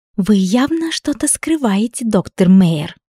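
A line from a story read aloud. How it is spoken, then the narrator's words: Smirking whisper. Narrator (Russian): С ухмылкой прошептала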